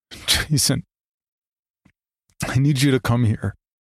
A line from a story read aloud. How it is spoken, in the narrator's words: I said, sobbing